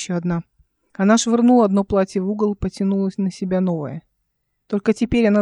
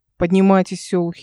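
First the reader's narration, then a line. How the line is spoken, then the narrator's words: Displeased tone. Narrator (Russian): недовольным тоном сказала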